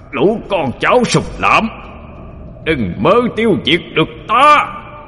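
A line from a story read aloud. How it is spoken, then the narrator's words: Wounded demon's ghastly roar. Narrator (Vietnamese): Thánh quỷ trúng đòn, gầm lên một tràng ghê rợn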